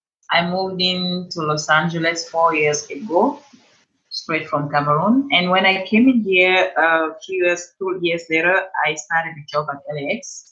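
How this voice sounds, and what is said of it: Cameroonian accent. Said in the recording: “I'm originally from Cameroon. That's where I have this beautiful accent.”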